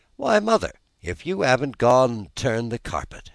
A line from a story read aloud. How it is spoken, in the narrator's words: she exclaimed, with something in her voice that spoke awe and admiration